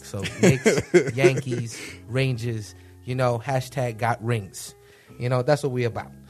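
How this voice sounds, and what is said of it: New York accent. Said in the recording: “As all of you can tell from my accent, born and raised in New York”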